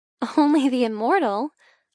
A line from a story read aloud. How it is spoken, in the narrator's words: I giggle